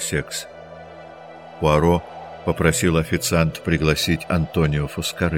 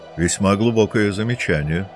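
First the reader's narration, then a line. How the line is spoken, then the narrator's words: Plain. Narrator (Russian): сказал Пуаро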